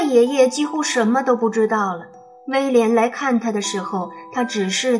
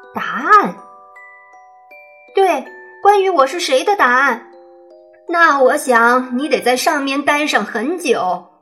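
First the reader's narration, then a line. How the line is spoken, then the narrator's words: Loud. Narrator (Chinese): 威廉大声的回应道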